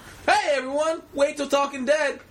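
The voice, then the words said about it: Chris Hardwick impression. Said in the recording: “That's my Chris Hardwick impression”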